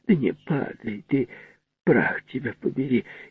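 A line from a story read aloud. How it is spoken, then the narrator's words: Vengeful muttering. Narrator (Russian): мстительно, бормотала что-то себе под нос в предвкушении какого-то спора со скелетом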